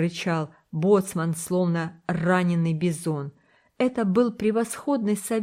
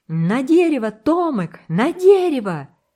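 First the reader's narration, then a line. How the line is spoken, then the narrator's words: Urgent, uncontrolled shout. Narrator (Russian): Смуга не выдержал и крикнул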